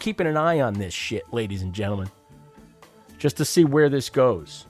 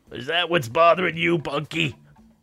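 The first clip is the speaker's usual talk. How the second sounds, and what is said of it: Old philosopher character voice. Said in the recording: “I'm really trying to work on my Eddie Lawrence impression. You know, the old philosopher.”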